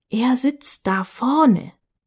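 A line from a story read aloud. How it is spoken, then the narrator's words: Whisper. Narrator (German): in diesem Flüsterton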